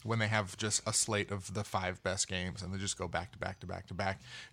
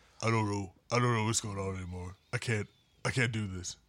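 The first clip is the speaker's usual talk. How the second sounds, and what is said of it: Ernie Johnson impression. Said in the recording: “That was a great Ernie Johnson impression. ... That's my Ernie.”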